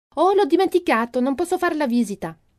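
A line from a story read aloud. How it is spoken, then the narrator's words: Exclaims. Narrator (Italian): Ilma esclama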